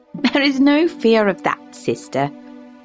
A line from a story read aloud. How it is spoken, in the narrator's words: said Isabella with a laugh